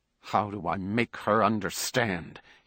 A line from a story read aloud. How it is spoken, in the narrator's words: He asked himself savagely, grinding his teeth together